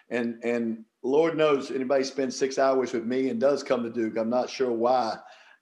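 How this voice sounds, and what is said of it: Southern US drawl. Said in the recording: “They're just attracted to the accent ... It's that southern drawl”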